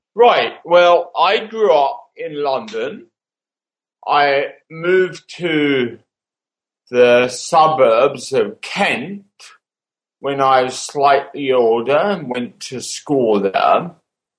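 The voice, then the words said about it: Thick British accent. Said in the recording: “a rather thick accent, at least from my perspective”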